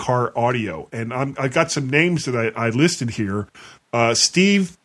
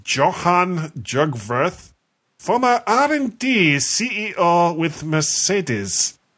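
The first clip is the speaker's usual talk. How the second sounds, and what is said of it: Bad put-on German accent. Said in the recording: “strange accent... It was a really bad German accent.”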